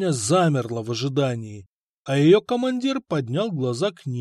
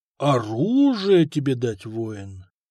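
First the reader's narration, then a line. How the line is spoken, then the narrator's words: Gentle question. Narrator (Russian): ласково поинтересовался сотник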